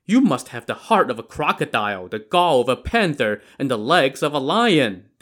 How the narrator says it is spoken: they exclaimed

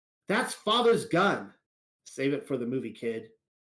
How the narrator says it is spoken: Jemima yells

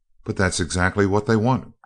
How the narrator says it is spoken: cried Margaret excitedly

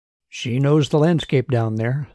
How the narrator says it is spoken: said Martin

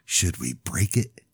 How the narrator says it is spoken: Sounding dead serious, he whispered

